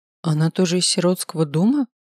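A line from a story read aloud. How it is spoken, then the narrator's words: Confused mumble. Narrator (Russian): Растерянно пробормотала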